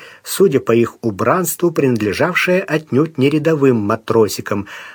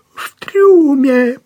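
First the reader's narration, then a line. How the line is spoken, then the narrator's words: Faltering babble. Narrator (Russian): пролепетал инженер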